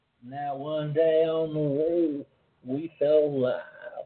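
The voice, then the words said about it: Poor Morgan Freeman impression. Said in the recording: “Morgan Freeman lines... No, that was terrible.”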